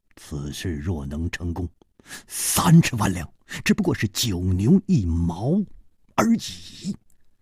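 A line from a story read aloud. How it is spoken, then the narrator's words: Low, deep voice. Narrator (Chinese): 张孝林沉声说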